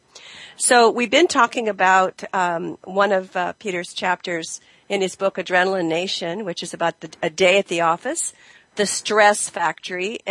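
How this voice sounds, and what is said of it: Voice sounds sick. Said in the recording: “I sound sick, which I am”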